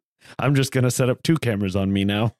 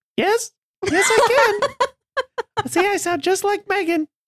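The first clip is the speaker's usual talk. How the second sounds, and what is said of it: Imitated girl voice. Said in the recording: “Can you make a girl voice? ... Oh, that's a fantastic impersonation.”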